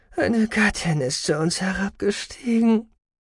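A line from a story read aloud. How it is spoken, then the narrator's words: Sighing. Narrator (German): seufzte er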